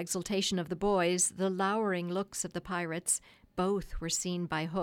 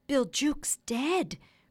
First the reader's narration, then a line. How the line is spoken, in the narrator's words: cried the startled pirates